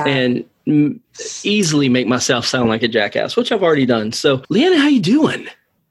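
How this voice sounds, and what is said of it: Southern American accent. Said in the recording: “you hear the southern dripping off of my voice ... I appreciate the southern accent.”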